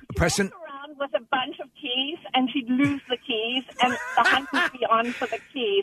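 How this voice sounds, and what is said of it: South African accent. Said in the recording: “I'm from South Africa. ... I love your accent. ... Wonderful accent.”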